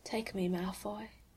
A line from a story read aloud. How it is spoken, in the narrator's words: he whispers in Draco's ear